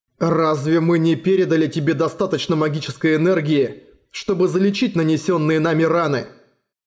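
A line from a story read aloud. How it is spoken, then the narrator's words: Plain. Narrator (Russian): спросил Эрагон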